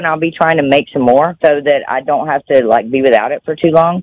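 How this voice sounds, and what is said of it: Noticeable regional accent. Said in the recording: “your lovely accent”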